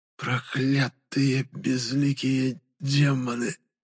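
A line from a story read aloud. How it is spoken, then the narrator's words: Whisper through bloodied lips. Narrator (Russian): прошептала окровавленными губами Алавийка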